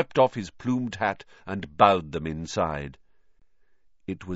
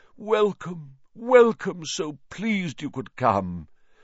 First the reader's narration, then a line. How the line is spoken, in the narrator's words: he said mournfully